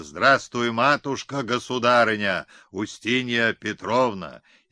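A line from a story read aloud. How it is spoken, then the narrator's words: Crowd shouting. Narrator (Russian): все прокричали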